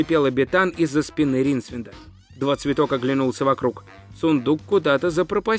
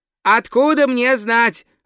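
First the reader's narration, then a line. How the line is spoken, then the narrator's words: Snapping retort. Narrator (Russian): огрызнулся Два Цветок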